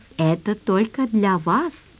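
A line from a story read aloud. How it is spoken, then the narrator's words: Insinuating rustling voice. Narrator (Russian): вкрадчиво шелестел один из клерков по имени Ахмед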